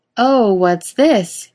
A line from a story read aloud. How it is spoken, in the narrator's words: Misha asks loudly